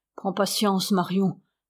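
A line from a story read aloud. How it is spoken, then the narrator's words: Murmur. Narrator (French): murmura la Lebrec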